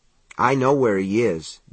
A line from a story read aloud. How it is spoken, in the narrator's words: David said calmly